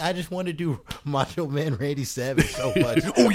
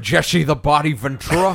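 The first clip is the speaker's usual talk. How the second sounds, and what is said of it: Jesse Ventura impression. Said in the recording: “Do your Jesse the Body... It's not bad. Not bad... It's a good start.”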